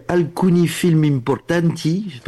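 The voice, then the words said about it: Put-on Italian accent. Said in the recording (French): “Vous avez noté l'accent.”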